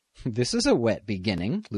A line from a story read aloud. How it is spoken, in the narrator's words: Lucy Kingston said, laughing